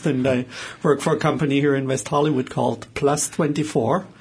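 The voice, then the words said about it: German accent. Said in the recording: “my accent is from Germany”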